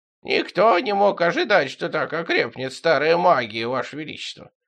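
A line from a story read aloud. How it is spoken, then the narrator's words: Creaky voice. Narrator (Russian): проскрипел мессир Гафре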